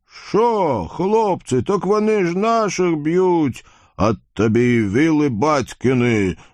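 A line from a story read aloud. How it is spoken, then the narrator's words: Friendly deep booming. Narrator (Russian): дружелюбно прогудел Вакула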